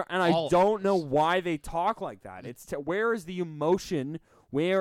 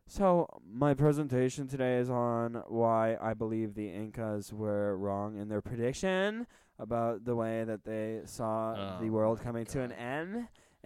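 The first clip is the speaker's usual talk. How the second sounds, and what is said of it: Flat monotone with upward-ending sentences. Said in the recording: “upspeak ... when you finish all your sentences going upward ... It's usually a monotone, very boring person talking”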